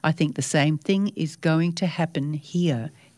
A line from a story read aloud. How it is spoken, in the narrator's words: he said